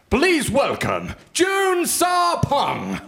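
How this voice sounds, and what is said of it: Imitates the X Factor announcer. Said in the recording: “Wow. Really good. ... anyone else who thinks they can do an X Factor impression?”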